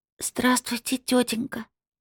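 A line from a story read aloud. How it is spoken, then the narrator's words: Excited, frightened whisper. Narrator (Russian): прошептала одновременно восторженно и испуганно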